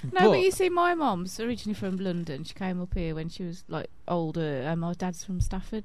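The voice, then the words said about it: Wolverhampton local accent. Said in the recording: “apparently I say phone quite funny and one ... that's kind of Willenhall, isn't it? ... I shouldn't really have much of an accent, but I do, apparently.”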